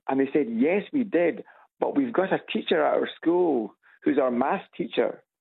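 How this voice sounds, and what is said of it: Scottish accent. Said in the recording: “the Scots accent is kind of fairly well known ... a gentleman today who thought I was Irish ... there is a crossover between Scots and Irish accent”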